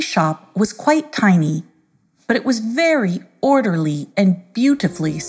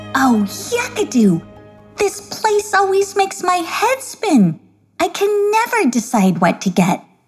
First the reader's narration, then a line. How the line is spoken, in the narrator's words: exclaimed I Can't Decida in delight